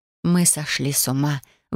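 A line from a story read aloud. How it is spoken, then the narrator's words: Breathless exhale. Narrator (Russian): выдохнула я чуть позже, когда сердце перестало грохотать и пытаться выскочить из груди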